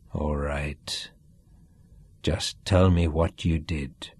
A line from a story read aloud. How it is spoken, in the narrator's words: he said coldly